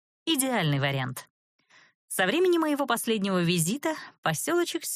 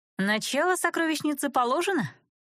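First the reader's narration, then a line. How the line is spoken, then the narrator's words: Snide question. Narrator (Russian): ехидно поинтересовалась я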